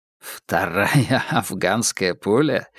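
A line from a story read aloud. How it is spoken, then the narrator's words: Laughing. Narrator (Russian): рассмеялся Холмс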